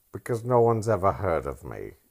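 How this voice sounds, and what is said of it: Bad accent drifting into Alan Rickman. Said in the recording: “I don't know what accent that was... I went into Alan Rickman for a second... It's bad.”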